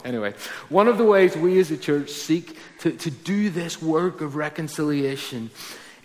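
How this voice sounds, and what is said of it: Northern Irish Ballymena accent. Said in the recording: “I'm not American, by the way ... I'm from Ballymena, if you can't tell from my accent.”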